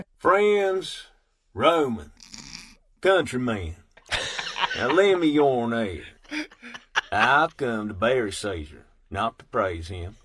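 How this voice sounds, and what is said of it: Shakespeare in a Southern accent. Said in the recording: “Shakespeare sounds better in a southern accent ... hee-haw Shakespeare”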